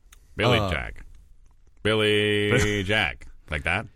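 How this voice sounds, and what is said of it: 1970s movie trailer announcer voice. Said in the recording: “you guys actually kind of do a pretty good impression of that guy that did trailers in the 70s.”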